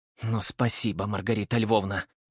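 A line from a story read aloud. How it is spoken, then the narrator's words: Woman, through gritted teeth. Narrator (Russian): процедила сквозь зубы вторая жена, Ульяна Ивановна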